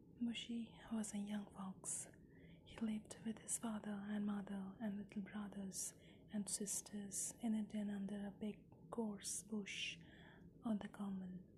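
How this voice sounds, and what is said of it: Whispered storytelling. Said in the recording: “World of Whisper”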